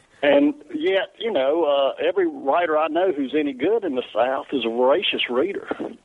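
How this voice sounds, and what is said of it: Southern US accent. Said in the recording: “because of my accent, you know, or just the perception of the South”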